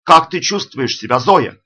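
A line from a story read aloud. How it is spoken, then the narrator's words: Shouting. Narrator (Russian): Наклонившись к Зоиному уху, он закричал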